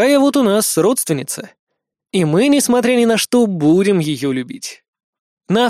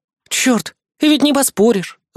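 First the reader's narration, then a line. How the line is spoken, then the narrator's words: Sighing. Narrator (Russian): Вздохнула она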